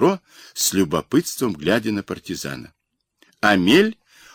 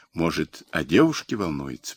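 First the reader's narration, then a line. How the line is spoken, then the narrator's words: Inner thought. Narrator (Russian): подумал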